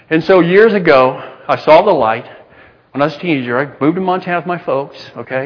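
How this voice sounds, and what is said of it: Texas accent. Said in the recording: “Texas is still a part of me. I can't lose that accent.”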